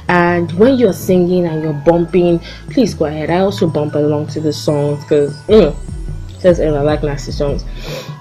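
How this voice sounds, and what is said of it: Very fast speech. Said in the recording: “I'm talking too fast.”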